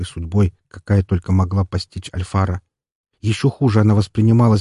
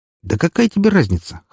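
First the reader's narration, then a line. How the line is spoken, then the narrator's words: Smirking grunt. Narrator (Russian): хмыкнул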